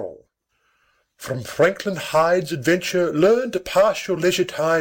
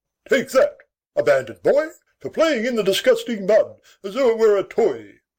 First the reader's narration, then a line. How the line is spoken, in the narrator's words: exclaiming with a final thud